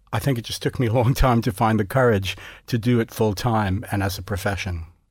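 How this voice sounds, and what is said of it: Gentle American accent. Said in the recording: “You're obviously American, although that accent is gentle now”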